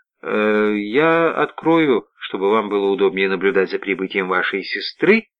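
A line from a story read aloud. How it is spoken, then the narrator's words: Cheerful, teasing, veiled malice. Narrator (Russian): сказала она веселым, дразнящим тоном, словно тщательно прятала свои коготки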